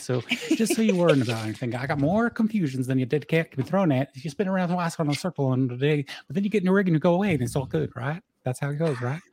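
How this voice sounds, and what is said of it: Southern Oregon accent, fast speech. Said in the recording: “I come from Southern Oregon, where this accent is what I grew up with ... I should have said that slower because I also picked up the New York habit of talking too fast”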